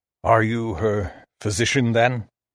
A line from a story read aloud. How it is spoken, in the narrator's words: His voice sounded strange, dry and old